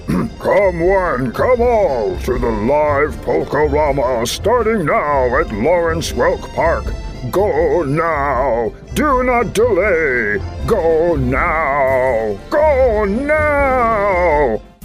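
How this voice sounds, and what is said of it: Slow, deep announcer voice. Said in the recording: “read slowly and with a deep voice ... Deep voice,”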